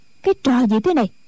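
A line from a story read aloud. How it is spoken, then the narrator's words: Shouting. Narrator (Vietnamese): Tĩnh Quyền quát lên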